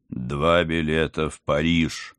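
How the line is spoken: Loud proclamation. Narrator (Russian): громко провозгласил знаменитый сыщик

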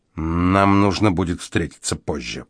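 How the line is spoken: Hiss. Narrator (Russian): прошипел Спинк

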